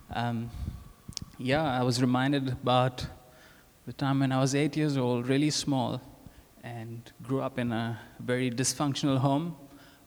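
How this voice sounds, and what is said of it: Indian English accent. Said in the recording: “I am from India. ... My accent will tell you that.”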